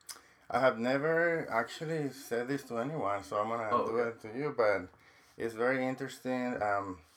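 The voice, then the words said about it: Non-native English accent. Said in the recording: “I couldn't get rid of my accent ... if you learn a second language ... I like your accent”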